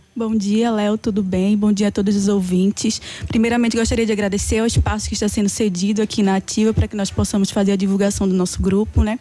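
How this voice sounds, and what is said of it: Northeastern Brazilian Pernambuco accent. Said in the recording (Portuguese): “Adorei esse sotaque ... Esse sotaque vem lá do Nordeste, Pernambuco”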